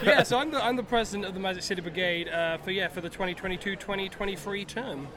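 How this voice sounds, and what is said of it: British accent. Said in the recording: “British people ... my accent”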